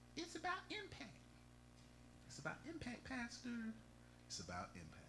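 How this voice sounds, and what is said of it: Imitates another person's voice. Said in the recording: “in my Akile voice,”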